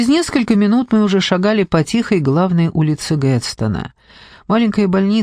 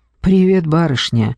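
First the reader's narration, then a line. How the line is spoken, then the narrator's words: Forced hoarse whisper. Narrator (Russian): выдавил из себя хриплым шепотом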